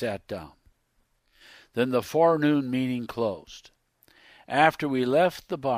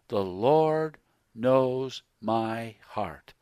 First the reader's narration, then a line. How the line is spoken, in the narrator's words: with a sanctimonious look, said slowly